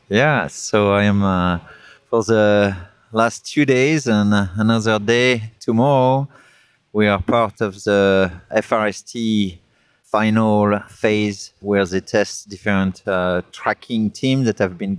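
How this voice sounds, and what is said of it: Strong French accent. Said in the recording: “I still have my strong accent from France”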